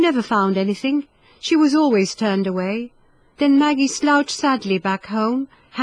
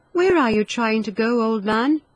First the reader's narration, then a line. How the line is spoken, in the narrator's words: she asked kindly